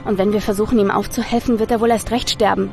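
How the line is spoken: Plain. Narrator (German): sagte Nathaniel

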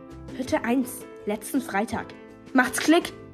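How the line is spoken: Hissing snap. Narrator (German): fauchte Ilva

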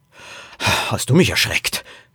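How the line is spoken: Father gasping. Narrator (German): keuchte Poppys Vater

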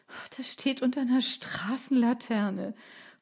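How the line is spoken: Panting. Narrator (German): keuchte

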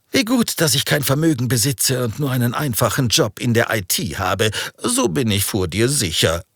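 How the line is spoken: Laughing. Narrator (German): lachte er

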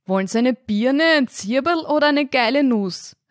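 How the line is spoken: Called out from the bar. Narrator (German): rief der Wirt von der Theke

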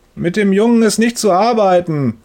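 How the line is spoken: Booming through a wall. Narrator (German): donnert Herr Müllers Stimme durch die Wand

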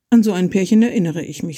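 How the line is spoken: Plain. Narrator (German): sagte sie dann

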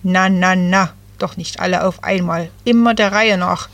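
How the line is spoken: Croaking voice. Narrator (German): krächzte

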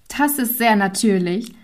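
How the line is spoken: Girl laughing. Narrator (German): lachte das Mädchen

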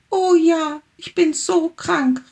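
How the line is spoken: Calling, small tiger. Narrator (German): rief der kleine Tiger

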